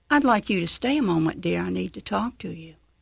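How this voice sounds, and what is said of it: Southern accent. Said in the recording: “in her southern accent”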